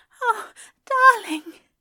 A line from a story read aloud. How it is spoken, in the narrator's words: Aziraphale gasped